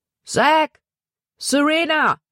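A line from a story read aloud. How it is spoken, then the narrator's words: Called out. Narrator (German): rief er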